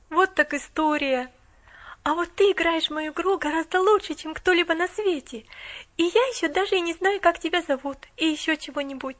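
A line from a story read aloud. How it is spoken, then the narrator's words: Awed exclamation. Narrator (Russian): воскликнула Поллианна с благоговейным страхом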